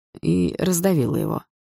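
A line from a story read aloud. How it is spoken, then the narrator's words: Grim. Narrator (Russian): добавил мрачно Лёха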